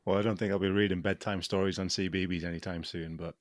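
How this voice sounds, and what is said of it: British BBC-style accent. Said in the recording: “as you can hear, he's got a nice BBC accent”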